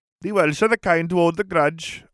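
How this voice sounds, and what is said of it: Exaggerated cartoonish Welsh accent. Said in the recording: “I can do a stupidly like cartoony Welsh accent. I can't do like an authentic sounding one. ... makes it clear that I'm trying to be Welsh”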